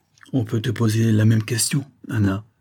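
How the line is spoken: Curt retort. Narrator (French): repartit Caneparo sèchement

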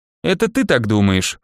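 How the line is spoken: Wry snort. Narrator (Russian): хмыкнул я

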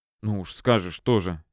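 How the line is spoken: Defensive mutter. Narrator (Russian): оправдываясь, пробормотал напарник

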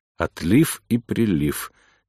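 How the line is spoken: Quiet mutter to oneself. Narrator (Russian): тихо пробормотал я себе под нос

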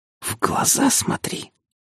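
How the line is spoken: Hissed through closed mouth. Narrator (Russian): Шипеть с закрытым ртом и ангельским выражением лица

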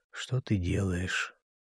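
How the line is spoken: Muttering. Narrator (Russian): бормотал

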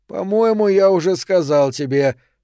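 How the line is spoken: Rude reply. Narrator (Russian): ответил он грубо

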